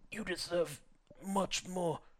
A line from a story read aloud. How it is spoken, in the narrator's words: Nozomi croaked, her throat still aching